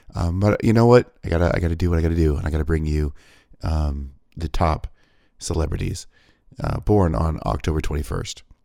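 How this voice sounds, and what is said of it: Weak, hoarse, barely-there voice. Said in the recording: “I'm still nearly dead. ... My voice is holding on by a whisper”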